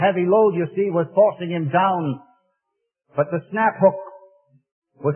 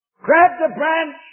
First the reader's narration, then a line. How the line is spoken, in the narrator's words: shouted his friend